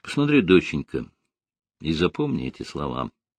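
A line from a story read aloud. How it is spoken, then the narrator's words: Said quietly. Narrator (Russian): тихо сказал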